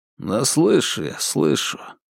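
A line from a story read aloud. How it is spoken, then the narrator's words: Sullen mumble. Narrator (Russian): хмуро буркнул Славик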